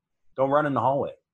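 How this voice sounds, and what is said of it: Impression of a jerk. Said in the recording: “my impression of a dick”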